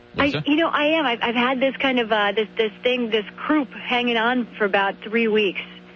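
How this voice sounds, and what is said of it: Hoarse, sore-throated voice. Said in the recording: “you sound like you're a bit under the weather. If you got a sore throat, you sound like you may be a little hoarse.”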